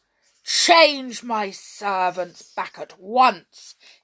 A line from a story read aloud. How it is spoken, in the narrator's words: he commanded in his biggest voice